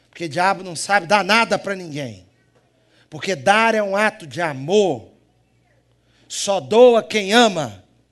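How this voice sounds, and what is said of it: Brazilian Mineiro accent. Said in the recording (Portuguese): “Vocês devem estar estranhando meu sotaque também, né? ... Vocês devem estar achando engraçado quando eu falo. Eu tenho sotaque de quê? Mineiro!”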